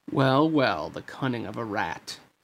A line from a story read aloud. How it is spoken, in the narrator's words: Jafar sneered